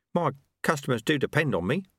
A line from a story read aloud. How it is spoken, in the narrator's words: Ronnie Soak mumbled